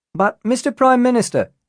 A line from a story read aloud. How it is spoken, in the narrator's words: shouted another reporter